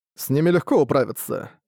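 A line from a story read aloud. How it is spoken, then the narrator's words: Snorting. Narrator (Russian): хмыкнул он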